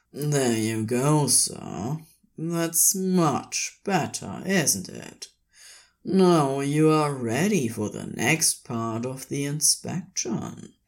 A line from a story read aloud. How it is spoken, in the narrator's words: Crowley purred hungrily into his neck